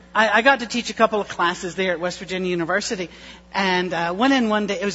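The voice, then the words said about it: West Virginia accent. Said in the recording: “friends of ours when we lived in West Virginia. And that's where I get the accent”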